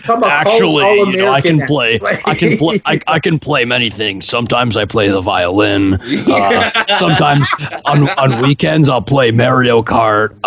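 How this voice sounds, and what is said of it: Imitates another person's voice. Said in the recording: “Your impression of my voice changes every week”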